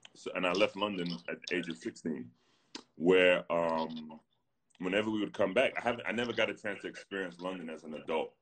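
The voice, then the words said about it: South London accent. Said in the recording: “my accent comes out... South London”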